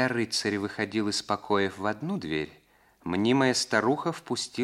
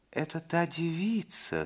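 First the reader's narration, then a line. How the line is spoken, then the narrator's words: Soft sing-song whisper. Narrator (Russian): спросил Роций от природы нежным голосом, нарочито смягченным сейчас до певучего шепота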